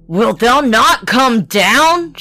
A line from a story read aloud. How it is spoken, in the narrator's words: shouted Bluebeard